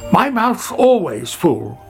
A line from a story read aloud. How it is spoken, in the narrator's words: Sammy shouted after him